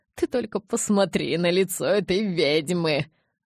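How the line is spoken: Stifled laugh. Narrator (Russian): сдавленно хохотнул тот

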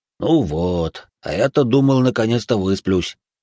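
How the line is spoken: Sad remark. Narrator (Russian): грустно заметил полуорк

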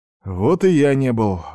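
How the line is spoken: Sigh. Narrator (Russian): вздохнул старшина

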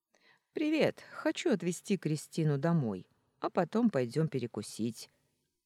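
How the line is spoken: Cheerful announcement. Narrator (Russian): бодро сообщил Костя

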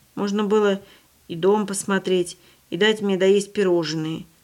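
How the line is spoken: Boy grumbling. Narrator (Russian): проворчал мальчик

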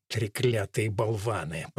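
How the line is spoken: Grumble. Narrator (Russian): пробурчал

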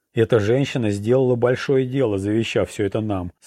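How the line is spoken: Plain. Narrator (Russian): сказал он

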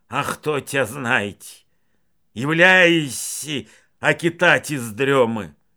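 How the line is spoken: Grumbled. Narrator (Russian): он лишь буркнул

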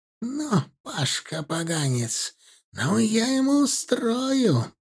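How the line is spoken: Hissed. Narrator (Russian): прошипела она

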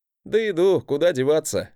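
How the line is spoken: Happy chuckle. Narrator (Russian): хохотнул я, радуясь, что в этот раз мой брат вернулся невредимым и прошедшим испытание

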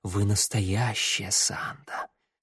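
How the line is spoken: Breathy. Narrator (Russian): С придыханием проговорил блондин

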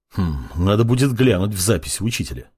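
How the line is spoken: Muttering. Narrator (Russian): пробормотал Мак

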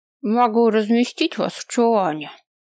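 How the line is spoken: Old man speaking. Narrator (Russian): проговорил старик

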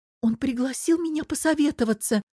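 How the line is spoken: Timid babble. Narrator (Russian): пролепетала Оля

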